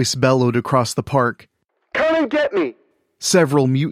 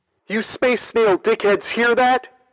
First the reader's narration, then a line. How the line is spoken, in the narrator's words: She called out